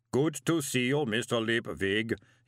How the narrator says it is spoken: he boomed cheerfully

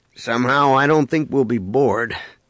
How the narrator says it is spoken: Han remarked dryly

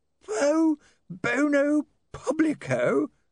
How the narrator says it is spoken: he croaked

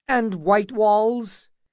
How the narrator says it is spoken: asked Butterwell with quavering voice

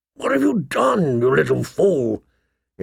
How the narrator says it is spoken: He asked hoarsely

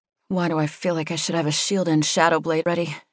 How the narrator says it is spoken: muttered

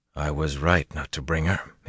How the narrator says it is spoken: muttered

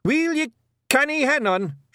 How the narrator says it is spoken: shouted Rob Anybody

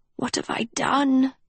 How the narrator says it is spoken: she breathed

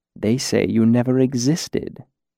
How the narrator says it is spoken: Chronicler corrected gently

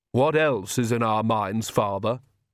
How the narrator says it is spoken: said Vlad coldly

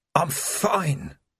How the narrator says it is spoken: croaked Vimes, through a throat that felt stuffed with sand

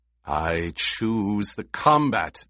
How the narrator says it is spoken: Jameis growled

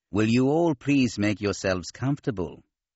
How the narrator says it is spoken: Cien Sov said in his nasal voice

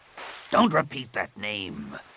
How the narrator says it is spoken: Rapung snarled

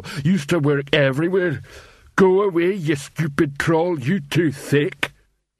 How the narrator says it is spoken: he added gloomily

